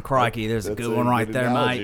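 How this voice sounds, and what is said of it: Put-on Australian accent impression. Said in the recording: “you should probably leave the accent ... I can do a really good Australian accent.”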